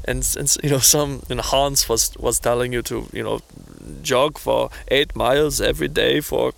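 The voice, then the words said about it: Put-on exaggerated Hans-style accent. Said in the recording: “I'm offending myself with that accent”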